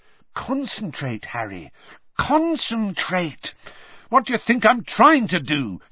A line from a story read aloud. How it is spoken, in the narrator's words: said Harry angrily